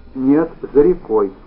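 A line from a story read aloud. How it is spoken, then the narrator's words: Plain. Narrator (Russian): сказала Аглая Петровна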